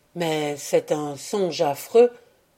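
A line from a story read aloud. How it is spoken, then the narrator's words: Murmuring. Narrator (French): murmura Giovanni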